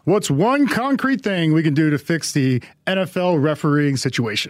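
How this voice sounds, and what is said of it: Game show announcer voice. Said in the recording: “you have to read this in a game show announcer voice”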